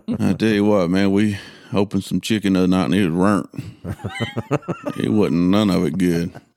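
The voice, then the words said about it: Arkansas Southern American accent. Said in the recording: “I do Arkansas dialect pretty good. ... That's just my normal one.”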